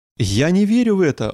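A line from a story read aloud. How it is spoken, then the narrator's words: King exclaiming. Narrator (Russian): воскликнул царь Асака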